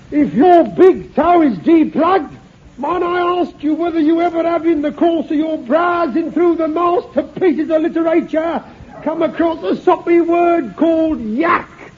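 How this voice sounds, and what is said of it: Raised, shouting voice. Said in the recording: “I'm afraid I'll just have to raise my voice a little because, as I told you before, she's in the bar.”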